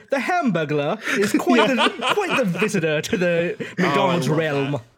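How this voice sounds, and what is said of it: Slow put-on British accent. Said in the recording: “Just very slowly, like, panning around a camera ... in a British accent”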